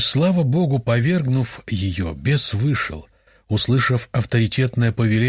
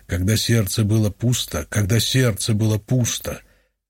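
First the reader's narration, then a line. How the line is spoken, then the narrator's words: Deep male bass voice. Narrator (Russian): низким мужским басом из ее утробы отвечал бес, повторяя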